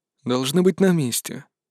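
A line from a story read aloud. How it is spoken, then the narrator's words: Calm reply. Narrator (Russian): спокойно ответил отец Нор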